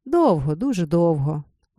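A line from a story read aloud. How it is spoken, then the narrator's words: Old man, heavy sigh. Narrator (Ukrainian): отказав старий, важко зітхнувши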